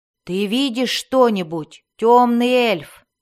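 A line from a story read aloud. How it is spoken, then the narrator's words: Loud, emboldened question. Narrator (Russian): громко спросил Белвар, слегка осмелев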